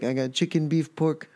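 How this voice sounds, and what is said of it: Put-on vaguely Greek-sounding accent. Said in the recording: “That was not a Mexican accent ... I don't know what that is. I was like Greek.”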